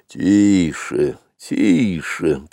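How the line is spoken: Grumbling elephant. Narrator (Russian): пробурчал дикий слон Хатхи

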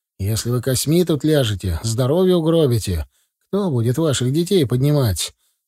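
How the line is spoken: Emphatically calm. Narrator (Russian): подчеркнуто спокойно продолжал я

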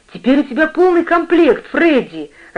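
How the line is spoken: Happy. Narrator (Russian): радостно сказал я

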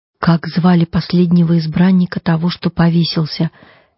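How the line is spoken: Quiet question. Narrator (Russian): тихо спросил Гэнзи

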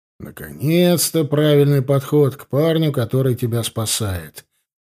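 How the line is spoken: Joking grumble. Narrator (Russian): проворчал я в шутку

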